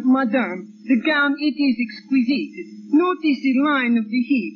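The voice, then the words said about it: Put-on French accent. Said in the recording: “you can put on a little French accent... practice up on your accent”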